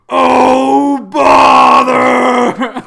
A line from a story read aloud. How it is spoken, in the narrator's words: I grip the 100-acre wood really hard and yell